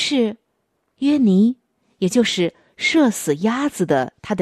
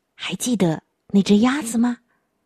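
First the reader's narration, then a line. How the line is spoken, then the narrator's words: Whispering. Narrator (Chinese): 他小声的对弟弟说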